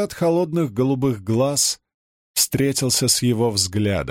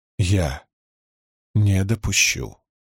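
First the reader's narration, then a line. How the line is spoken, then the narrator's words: Even, steady repetition. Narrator (Russian): ровным голосом повторил Перин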